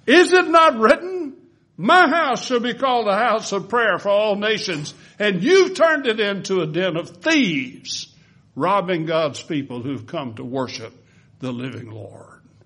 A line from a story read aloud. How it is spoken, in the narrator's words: he shouted after them